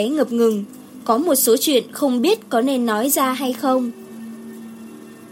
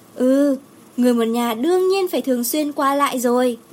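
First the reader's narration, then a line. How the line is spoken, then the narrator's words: Smiling, agreeing. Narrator (Vietnamese): Đồ Nhiễm mỉm cười nhận lời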